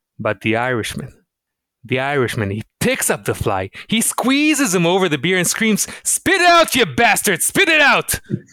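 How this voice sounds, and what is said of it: Put-on Irish accent. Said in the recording (Hebrew): “במבטא אירי”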